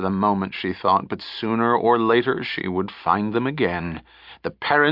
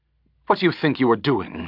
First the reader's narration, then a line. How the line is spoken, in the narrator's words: she snapped at him